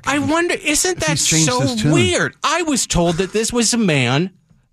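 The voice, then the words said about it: Sarcastic, higher-pitched voice. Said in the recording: “the more sarcastic I get, the higher my voice gets”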